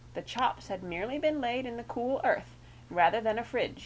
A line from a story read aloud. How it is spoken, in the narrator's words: he said